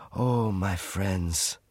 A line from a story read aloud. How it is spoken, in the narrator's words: said Francois sadly